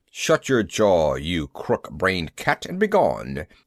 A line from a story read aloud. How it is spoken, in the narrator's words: he snarled at me